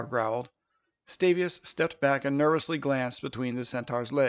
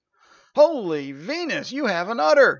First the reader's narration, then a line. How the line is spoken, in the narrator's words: he exclaimed